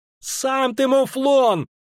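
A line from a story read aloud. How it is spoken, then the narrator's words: Shrill squeal. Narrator (Russian): взвизгнула Ангулема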